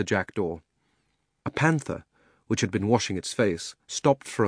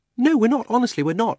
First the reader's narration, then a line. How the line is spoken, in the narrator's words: said Polly hastily